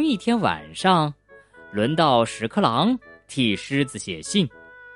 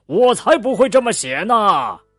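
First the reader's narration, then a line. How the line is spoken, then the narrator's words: Roaring lion. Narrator (Chinese): 狮子大吼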